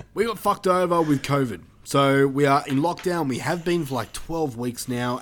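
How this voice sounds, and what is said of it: Australian accent. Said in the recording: “if you can't tell by our accents,⟧ are Australian.”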